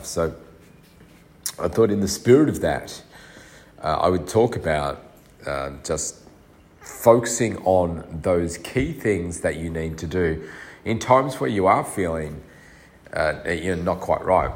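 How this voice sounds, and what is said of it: Congested, stuffy-nosed voice. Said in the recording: “You can probably hear still I'm very congested... I sound weird, my nose and everything is just horrible”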